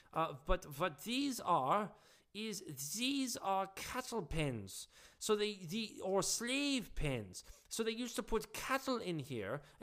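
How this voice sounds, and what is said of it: Poor Dutch or German accent. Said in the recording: “I'm not sure if I'm doing a Dutch or a German accent ... I'll stop the poor impression”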